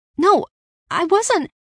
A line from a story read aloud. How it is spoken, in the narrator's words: I paled, nervously